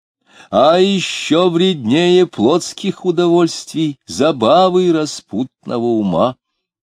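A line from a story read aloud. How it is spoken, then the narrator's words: Loud. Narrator (Russian): громко говорил Диомидов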